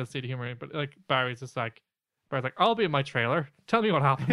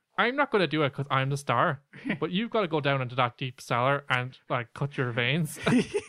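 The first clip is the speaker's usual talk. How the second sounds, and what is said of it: Put-on Northern Irish accent. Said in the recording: “That's our great Northern Ireland accent.”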